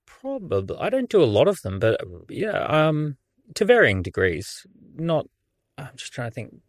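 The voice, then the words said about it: Australian accent. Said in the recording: “the accent is quite clearly not a British one. You're from Australia.”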